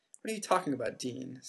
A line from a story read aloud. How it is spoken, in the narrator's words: said Ron